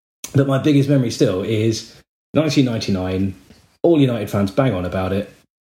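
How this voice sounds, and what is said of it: Southern English accent. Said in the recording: “my southern accent”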